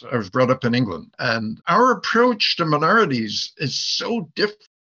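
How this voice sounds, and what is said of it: English accent. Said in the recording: “As you can tell, I speak funny. That's because I have an English accent.”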